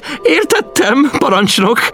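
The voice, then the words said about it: High, childish giggling voice. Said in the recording (Hungarian): “magas, gyerekes hangon vihogott.”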